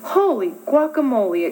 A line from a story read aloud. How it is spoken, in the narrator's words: exclaimed Skippy John Jones